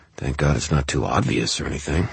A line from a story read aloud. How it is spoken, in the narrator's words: I muttered